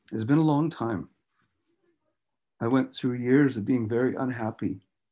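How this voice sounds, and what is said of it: Emotional, choked-up voice. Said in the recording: “I know you can hear it in what I'm saying ... I get emotional.”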